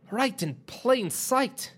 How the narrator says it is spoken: John exclaimed to himself

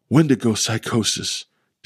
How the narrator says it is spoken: Deborah gasped breathlessly

